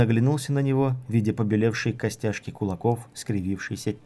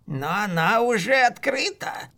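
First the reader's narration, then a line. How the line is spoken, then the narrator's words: Tense hoarse voice. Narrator (Russian): сказал маг напряженным и сиплым голосом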